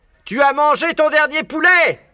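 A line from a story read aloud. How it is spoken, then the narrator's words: Yelling. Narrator (French): hurlait Boggies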